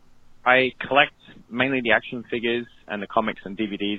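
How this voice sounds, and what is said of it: British accent. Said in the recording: “I was born in Europe. I'm from the UK. ... despite the accent.”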